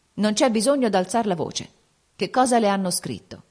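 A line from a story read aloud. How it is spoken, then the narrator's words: Cold and calm. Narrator (Italian): egli rispose, freddo e calmo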